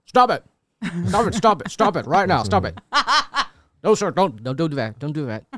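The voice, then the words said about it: Imitates another person's voice. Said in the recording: “doing an okay impression”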